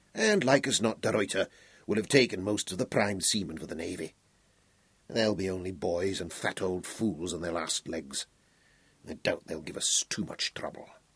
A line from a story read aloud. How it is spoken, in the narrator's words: he muttered to himself